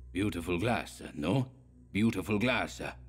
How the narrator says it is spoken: asked Coppola in his repulsive, hoarse voice, smiling maliciously

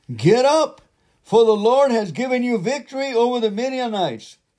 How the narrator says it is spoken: shouted

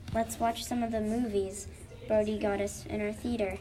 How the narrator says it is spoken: Danielle said happily

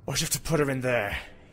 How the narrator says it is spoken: He asked angrily

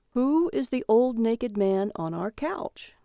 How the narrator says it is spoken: He said calmly

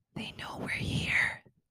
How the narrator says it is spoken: whispered

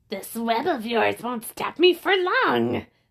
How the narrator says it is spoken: the villain growled

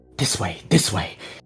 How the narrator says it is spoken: mutters to herself

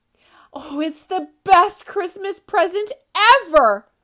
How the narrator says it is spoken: cried Splat

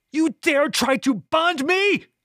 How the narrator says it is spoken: screamed

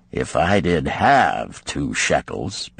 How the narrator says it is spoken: Bansir responded gloomily

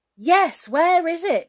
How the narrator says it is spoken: shouted everybody

